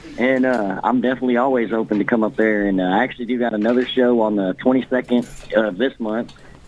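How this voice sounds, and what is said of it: Kentucky accent. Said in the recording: “my Kentucky accent might be showing a little there”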